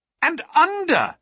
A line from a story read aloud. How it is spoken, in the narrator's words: cried